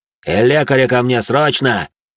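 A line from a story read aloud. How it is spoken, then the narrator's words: Barked. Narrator (Russian): рявкнул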